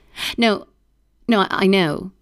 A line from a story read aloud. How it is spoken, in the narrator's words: Maggie says, her voice trembling